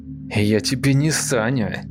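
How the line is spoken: Through gritted teeth. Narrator (Russian): сквозь зубы ответил Саша

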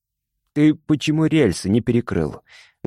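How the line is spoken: Menacing question. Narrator (Russian): грозно спросил Мишка

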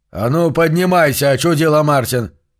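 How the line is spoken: Shouted. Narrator (Russian): крикнул он

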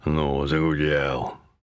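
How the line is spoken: Grumbling. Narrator (Russian): проворчал Зотов

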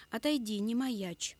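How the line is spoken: Sharp command. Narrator (Russian): Он довольно резко скомандовал Юрке

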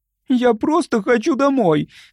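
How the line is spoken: Sobbing. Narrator (Russian): всхлипнула Любочка

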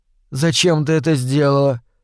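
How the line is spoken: Sleepy question. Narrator (Russian): сонно спросила мама

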